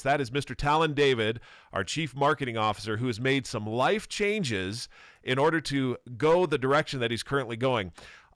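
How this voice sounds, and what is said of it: Polished radio announcer voice. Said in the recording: “your radio voice and how good you are at those intros”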